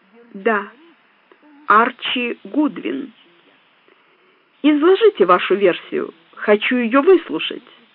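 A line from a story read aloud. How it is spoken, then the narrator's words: Calm, composed. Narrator (Russian): Пришлось, взяв себя в руки, спокойно проговорить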